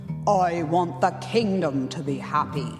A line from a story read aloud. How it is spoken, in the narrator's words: the king roared in his booming king voice